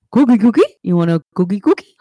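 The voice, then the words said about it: Cookie Monster character voice. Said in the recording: “You want to hear my Cookie Monster voice?”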